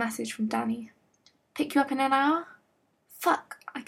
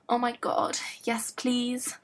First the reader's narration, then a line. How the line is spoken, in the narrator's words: Stiles groaned